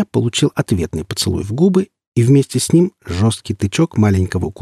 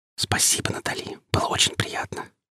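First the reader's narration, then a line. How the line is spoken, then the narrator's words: Whisper. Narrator (Russian): Прошептал я напоследок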